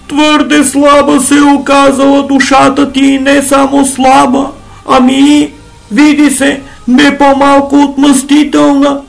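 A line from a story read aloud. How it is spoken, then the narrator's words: Groaning. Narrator (Bulgarian): простенал другият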